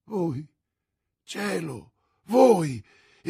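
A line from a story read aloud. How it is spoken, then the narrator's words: Exclamation. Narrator (Italian): esclamò la regina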